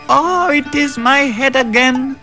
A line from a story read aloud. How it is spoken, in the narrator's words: wailed the jackal